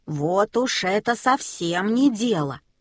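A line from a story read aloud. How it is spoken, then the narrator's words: Grumbling. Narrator (Russian): заворчал Мартин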